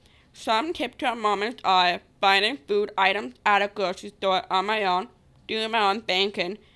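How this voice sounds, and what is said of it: Distinctive speech accent. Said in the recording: “my accent that comes along with my Down syndrome”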